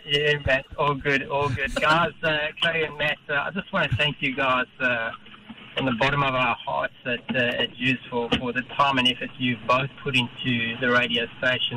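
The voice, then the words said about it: South African accent. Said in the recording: “You can hear that South African accent ... I can ... Oh, yeah, I can hear it too.”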